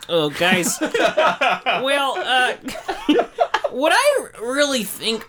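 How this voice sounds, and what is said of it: Impression of another person's voice. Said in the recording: “Can you say that again in a Trevor Gendon voice?”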